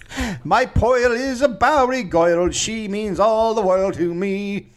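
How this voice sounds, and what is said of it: Sings in a Bowery accent. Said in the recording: “sang a few songs in a Bowery accent”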